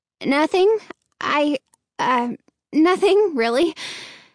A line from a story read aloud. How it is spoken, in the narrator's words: Hannah stammered